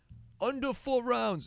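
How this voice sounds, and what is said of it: Bad Irish accent, Conor McGregor impression. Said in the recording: “Mystic Mac ... That's an awful Irish accent.”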